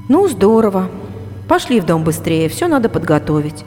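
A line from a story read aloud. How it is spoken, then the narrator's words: Dry reply. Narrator (Russian): сухо ответила я Лене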